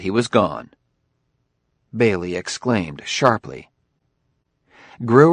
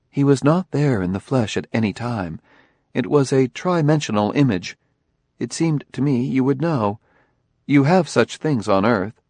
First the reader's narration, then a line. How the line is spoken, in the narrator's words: Daniil said calmly